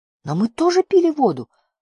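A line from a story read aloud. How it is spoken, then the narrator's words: Exclaiming. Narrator (Russian): воскликнул Барда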